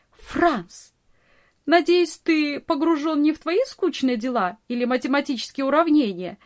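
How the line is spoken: Laughing scolding. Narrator (Russian): Смеясь, журила его Нони

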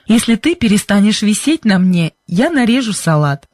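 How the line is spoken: Speaking then laughing. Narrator (Russian): сказал он и засмеялся

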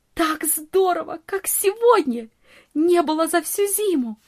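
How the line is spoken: Delighted exclamation. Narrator (Russian): восхищенно воскликнула Нони

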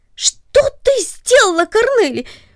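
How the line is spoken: Surprised cry. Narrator (Russian): вскрикнул он от внезапного удивления

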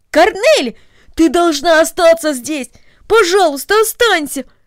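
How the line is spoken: Exclaimed. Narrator (Russian): воскликнул Дино

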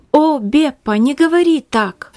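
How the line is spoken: Tearful exclamation. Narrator (Russian): воскликнула Магдалина, заливаясь слезами

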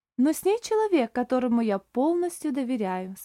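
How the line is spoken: Calm. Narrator (Russian): спокойно сказал Оливер

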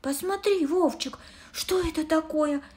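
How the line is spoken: Exclaimed. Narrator (Russian): воскликнула она

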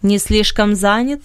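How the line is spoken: Mocking reply. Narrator (Russian): насмешливо отозвался Бенет

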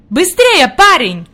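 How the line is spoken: Shouting. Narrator (Russian): крикнул господин Сесман

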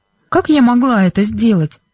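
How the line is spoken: Innocent-sounding question. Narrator (Russian): невинным голосом спросила Бренда

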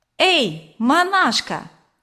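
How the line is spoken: Shouting. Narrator (Russian): крикнул Ленька

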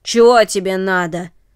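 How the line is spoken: Rough voice. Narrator (Russian): спросил он грубым голосом

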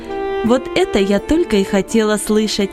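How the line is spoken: Cheerful laughing. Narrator (Russian): весело смеялась Долорес

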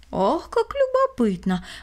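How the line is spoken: Exclaiming. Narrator (Russian): воскликнул он

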